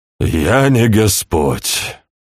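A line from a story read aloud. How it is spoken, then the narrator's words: Sighing. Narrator (Russian): вздохнул Хорхе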